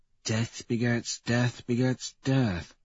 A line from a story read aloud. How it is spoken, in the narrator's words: he murmurs